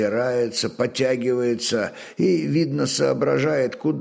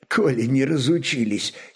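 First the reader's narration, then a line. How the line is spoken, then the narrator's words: Giggling. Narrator (Russian): хихикнул скоморох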